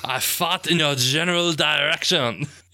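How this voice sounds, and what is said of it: Outrageous fake French accent. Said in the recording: “John Cleese as a Frenchman ... That outrageous accent.”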